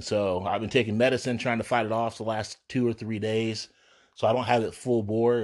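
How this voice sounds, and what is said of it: Slightly hoarse, congested voice. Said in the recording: “I think I sound a little bit hoarse. I've been coughing a little bit today... I just feel like I'm getting congested”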